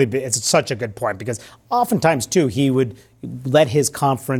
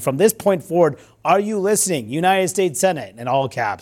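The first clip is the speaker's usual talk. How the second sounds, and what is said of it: Raised, louder voice. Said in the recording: “this is probably why I'm raising my voice”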